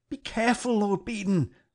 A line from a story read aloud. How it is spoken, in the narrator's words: cried